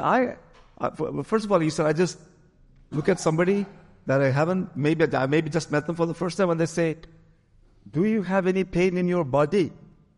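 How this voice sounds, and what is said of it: Poor put-on Ghanaian accent. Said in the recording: “forgive my Ghanaian accent. That's not a good one at all.”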